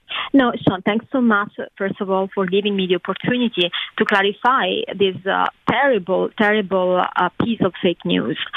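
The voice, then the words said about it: Italian accent. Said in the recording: “you have an accent, but you're from Italy.”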